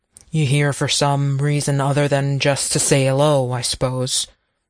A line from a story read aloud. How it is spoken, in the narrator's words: Braddock grunted